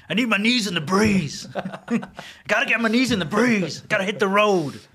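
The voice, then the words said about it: Put-on biker accent. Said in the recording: “in that biker accent”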